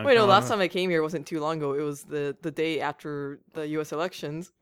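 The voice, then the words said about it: Congested, stuffy cold-sounding voice. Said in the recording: “do you have a terrible cold? ... It's a cold.”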